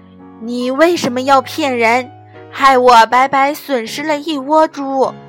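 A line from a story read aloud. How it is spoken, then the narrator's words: Loud questioning. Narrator (Chinese): 阿才大声地问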